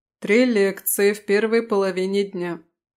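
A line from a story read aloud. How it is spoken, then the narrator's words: Even-toned reply. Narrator (Russian): как всегда ровным тоном ответил сэр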